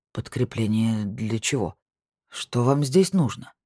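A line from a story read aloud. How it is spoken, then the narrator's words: Uncertain. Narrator (Russian): неуверенно уточнил Вальтер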